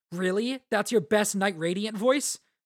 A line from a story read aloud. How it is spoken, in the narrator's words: And Rock laughs at that